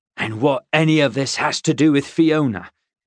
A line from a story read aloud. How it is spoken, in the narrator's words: Hugh growled